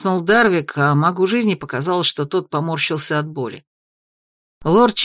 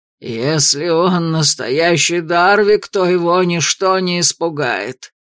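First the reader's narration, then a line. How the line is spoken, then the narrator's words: Growled. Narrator (Russian): рыкнул лорд Мортимер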